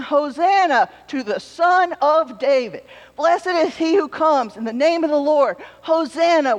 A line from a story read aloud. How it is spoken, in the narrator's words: Jesus' followers were waving palm branches and shouting